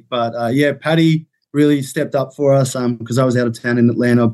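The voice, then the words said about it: Australian accent. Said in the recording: “is, in fact, Australian. ... I can confirm this accent is not fake”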